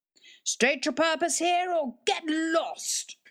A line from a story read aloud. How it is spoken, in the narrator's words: shouted Grandpa Drew from his second story window